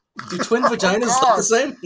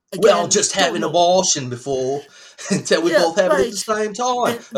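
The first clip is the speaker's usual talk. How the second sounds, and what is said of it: Bad put-on cockney accent. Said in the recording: “That's my worst accent about ever. ... Sound cockney. Very British with that. You're very cockney.”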